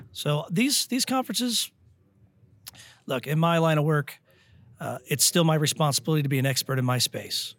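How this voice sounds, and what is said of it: Hoarse, strained voice. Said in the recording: “I'm losing my voice today.”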